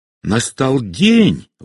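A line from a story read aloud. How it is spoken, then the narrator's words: Exclaiming. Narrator (Russian): воскликнула она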